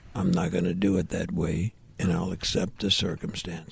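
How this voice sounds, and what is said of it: Deep, full serious voice impression. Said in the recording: “he's got that voice ... That was a good impression. ... He's got that fat voice where it just kind of fills up the whole speaker.”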